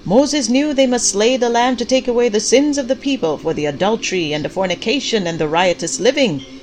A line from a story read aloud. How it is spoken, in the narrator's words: Pastor Clyde shouted